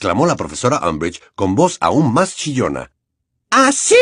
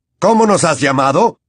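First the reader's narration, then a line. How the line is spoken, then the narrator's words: Centaur shouting. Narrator (Spanish): gritó un centauro negro de aspecto feroz a quien Harry reconoció como Bane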